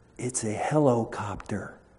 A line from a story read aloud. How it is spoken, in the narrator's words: whispered the little voice